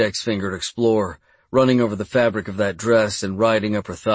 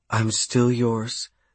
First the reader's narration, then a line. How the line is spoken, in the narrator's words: she whispered